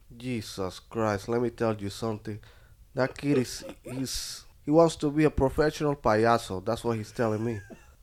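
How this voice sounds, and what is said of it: Impression of his father. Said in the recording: “impersonate him”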